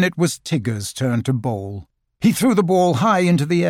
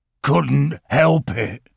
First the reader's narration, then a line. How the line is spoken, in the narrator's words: wheezed Eeyore